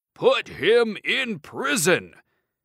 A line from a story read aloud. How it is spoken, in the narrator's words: shouted the emperor